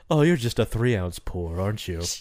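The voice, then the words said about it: Snooty rich person voice. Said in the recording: “You sound like a rich person insulting people below you.”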